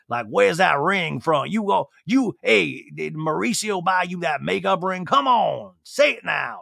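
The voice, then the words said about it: Gravelly, gruff bouncer-like voice. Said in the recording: “my voice is like, the Sutton's becoming like a gravelly bouncer”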